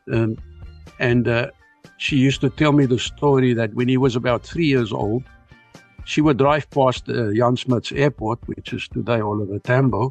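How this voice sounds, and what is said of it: Strong South African Afrikaans accent. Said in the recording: “your Afrikaans accent is still so strong all these years later. You don't seem to have lost any bit of South African accent there whatsoever”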